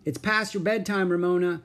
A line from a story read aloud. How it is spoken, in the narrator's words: she said